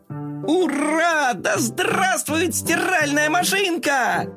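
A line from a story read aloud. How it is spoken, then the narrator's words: Joyful shout. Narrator (Russian): Коржик очень обрадовался и закричал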